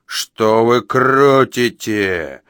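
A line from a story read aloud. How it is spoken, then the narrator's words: Roar. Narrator (Russian): взрычал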